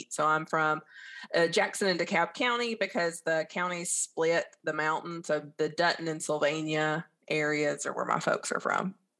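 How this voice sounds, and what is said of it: Southern Appalachian Alabama accent. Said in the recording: “where your accent is from ... I am originally from the northeast corner of Alabama at Sand Mountain. It's the lower Appalachians where Alabama, Georgia, and Tennessee meet.”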